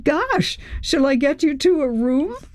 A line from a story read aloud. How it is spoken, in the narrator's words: Chris laughed